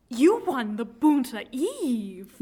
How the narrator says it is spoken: Luke exclaims

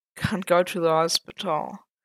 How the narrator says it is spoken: Matt muttered again, already drifting into sleep

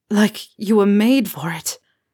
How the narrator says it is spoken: Harry groaned

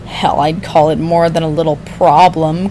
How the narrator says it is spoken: Queen sneered

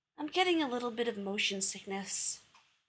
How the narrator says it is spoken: Rodney sighed

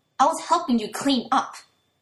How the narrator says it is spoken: Toya snaps, and the anger that doesn't crackle through his words

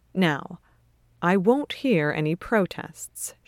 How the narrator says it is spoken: she says firmly

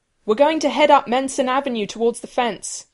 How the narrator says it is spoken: Rodney shouts in his ear

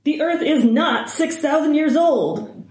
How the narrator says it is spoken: Hardison shouts

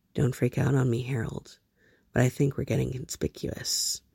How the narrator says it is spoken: abruptly, John murmured, very softly

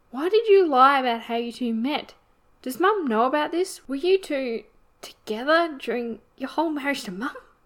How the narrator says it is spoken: came out as barely more than a squeak, the fire fizzling out of her at the thought

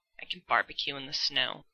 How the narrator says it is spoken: Dean grumbles

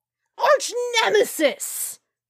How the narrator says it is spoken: Peter shouted at her

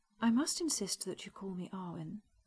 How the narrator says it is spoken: said evenly

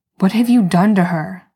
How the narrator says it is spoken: growls

